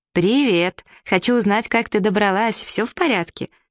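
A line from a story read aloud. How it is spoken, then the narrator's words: Cheerful. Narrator (Russian): весело сказала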